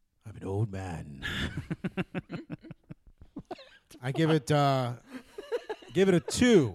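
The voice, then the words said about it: Put-on old man voice. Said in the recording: “That's his old man voice.”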